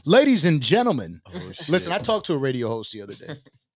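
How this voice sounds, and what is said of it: Announcer-style radio voice. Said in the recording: “Oh, the radio voice? ... Yeah, is that radio voice.”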